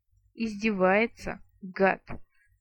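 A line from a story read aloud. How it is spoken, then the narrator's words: Vampire's hateful hiss. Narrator (Russian): с ненавистью прошипел вампир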